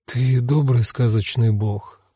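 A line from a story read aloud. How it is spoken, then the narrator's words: Whispered. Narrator (Russian): прошептала Ваннабелл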